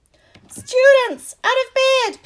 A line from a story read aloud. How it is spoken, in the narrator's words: Peeves bellowed